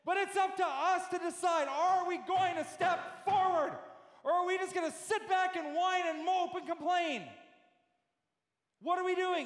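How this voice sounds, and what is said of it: Yelling, loud preaching voice. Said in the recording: “I'm sorry if I'm yelling.”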